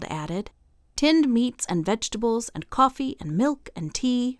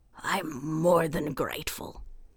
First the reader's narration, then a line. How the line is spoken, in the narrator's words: he said huskily